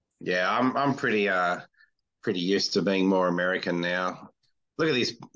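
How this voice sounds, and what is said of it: Slight nasal Australian accent. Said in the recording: “it's still got a bit of the Australian twang, but it is a lot clearer ... it is a nasal accent”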